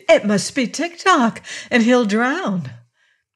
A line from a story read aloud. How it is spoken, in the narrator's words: cried Betsy